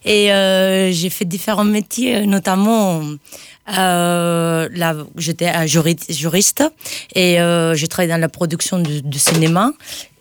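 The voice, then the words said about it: Spanish accent in French. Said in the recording (French): “avec mon accent, vous allez voir, ouais, je viens pas de France, je viens d'Espagne”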